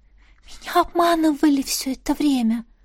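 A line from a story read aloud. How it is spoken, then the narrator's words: Very quiet breathy exhale. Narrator (Russian): Выдохнула Мередит как можно тише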